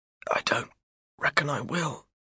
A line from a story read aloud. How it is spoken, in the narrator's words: he whispers